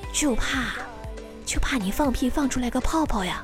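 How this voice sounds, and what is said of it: Very quiet, hushed speech. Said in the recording (Chinese): “特别小声的说”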